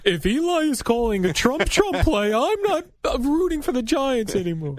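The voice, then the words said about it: Mocking impression of a sore loser. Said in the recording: “my loser impression.”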